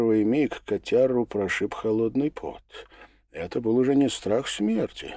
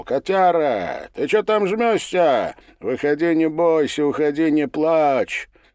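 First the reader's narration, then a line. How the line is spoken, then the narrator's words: Cheerful shout. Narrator (Russian): Валет весело крикнул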